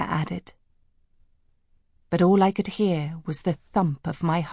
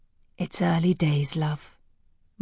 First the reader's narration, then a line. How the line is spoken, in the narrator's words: said soothingly